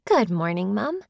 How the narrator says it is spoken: she said brightly

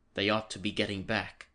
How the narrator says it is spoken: said the dwarf sharply

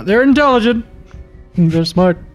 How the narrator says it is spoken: yell out

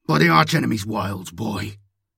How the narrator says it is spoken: Salvator growled

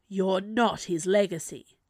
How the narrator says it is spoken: the dark snarled

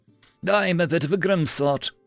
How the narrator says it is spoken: chuckled

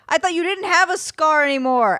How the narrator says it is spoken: I shouted

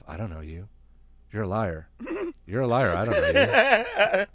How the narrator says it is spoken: he must have been mumbling to himself

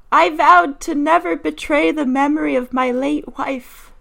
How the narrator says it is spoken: the thief cried

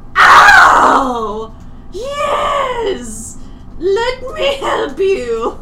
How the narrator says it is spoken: he shouts, into this intercom

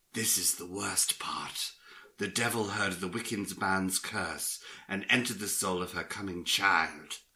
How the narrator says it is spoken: added in a hushed voice

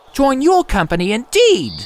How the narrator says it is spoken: cried Mr

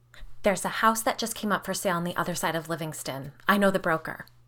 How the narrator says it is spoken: Carly said quickly

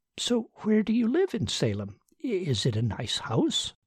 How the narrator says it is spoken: she asked brightly

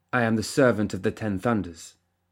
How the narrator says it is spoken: Mei Feng said stiffly

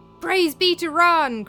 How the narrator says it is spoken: cried the housecarls

